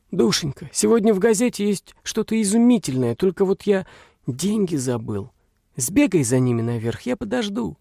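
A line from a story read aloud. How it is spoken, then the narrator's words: Very quiet, agitated. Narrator (Russian): Отец ее ... очень тихо, очень взволнованно сказал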